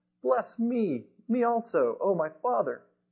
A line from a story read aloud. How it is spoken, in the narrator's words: he cried with an exceedingly great bitter cry and said to his father